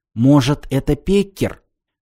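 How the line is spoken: Whispered question. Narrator (Russian): шепотом спросил из темноты Василий

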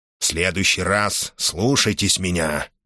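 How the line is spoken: Grumbling. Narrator (Russian): проворчал Корхан

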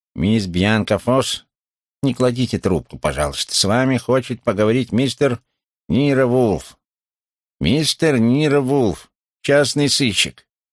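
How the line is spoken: Disguised nasal voice. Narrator (Russian): она заговорила совершенно иным голосом, едва шевеля губами и гнусавя

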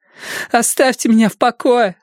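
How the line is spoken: Woman shouting. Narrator (Russian): закричала она

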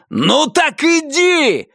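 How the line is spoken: Yelled. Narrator (Russian): заорал он

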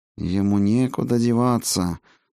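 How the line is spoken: Low, through teeth. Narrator (Russian): сквозь зубы и в полголоса проговорил лекарь

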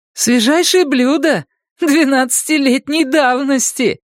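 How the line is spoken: Forced cheerful laugh. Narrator (Russian): Она рассмеялась с наигранной веселостью

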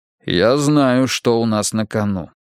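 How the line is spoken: Calm. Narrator (Russian): спокойно сказал Мунк

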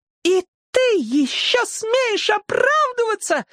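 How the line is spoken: Shrieking. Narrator (Russian): завизжала она

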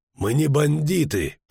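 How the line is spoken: Strained groan from above. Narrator (Russian): простонал сверху Геральт, едва выжимая голос из стиснутой ветками груди

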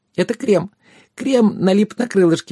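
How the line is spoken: Exclaimed. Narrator (Russian): воскликнула она

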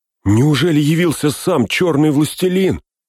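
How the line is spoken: Terrified cry. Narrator (Russian): в ужасе вскрикнул Пин

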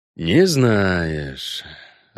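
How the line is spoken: Disappointed drawl. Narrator (Russian): разочарованно протянул Геральт

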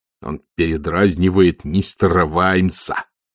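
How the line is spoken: Through gritted teeth. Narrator (Russian): сказал Маркоу сквозь зубы

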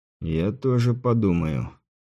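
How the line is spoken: Quiet, gentleman. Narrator (Russian): тихо сказал прекрасный сударь

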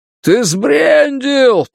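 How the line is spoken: Shouted reply. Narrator (Russian): прокричал в ответ Тревор

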